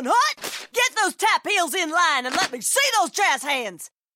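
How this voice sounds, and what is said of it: Drill instructor impression. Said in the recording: “my impression of a drill instructor directing a musical”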